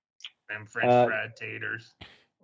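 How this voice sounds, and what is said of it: Imitates a film character's voice. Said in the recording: “Sling Blade impression”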